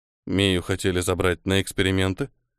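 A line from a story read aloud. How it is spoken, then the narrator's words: Calm question. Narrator (Russian): все так же спокойно спросил Ниэль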